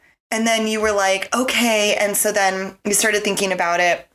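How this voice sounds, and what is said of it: Usual voice. Nothing is said of it.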